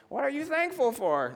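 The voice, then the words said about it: Put-on old grandma voice. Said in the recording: “That's my grandma voice.”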